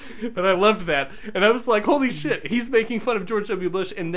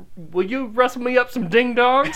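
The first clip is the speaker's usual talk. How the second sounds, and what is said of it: Put-on Southern US accent. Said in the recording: “in a real Southern accent”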